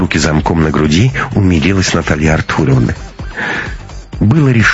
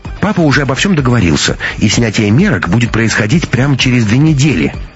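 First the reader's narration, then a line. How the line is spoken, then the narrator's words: Delighted exclamation. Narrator (Russian): приплясывая от восторга, воскликнула Анна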